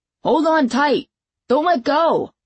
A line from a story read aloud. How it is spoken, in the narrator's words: I yelled